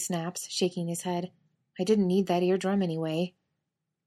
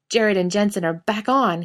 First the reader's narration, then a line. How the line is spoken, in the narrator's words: he blurts instead, skidding to a halt